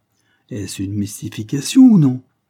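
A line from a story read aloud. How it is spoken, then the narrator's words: Woman roaring. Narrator (French): reprit en rugissant Mademoiselle Cornélie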